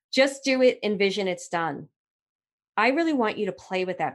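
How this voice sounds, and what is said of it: Strong Brooklyn accent. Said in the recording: “My Brooklyn accent's getting stronger and stronger by the minute.”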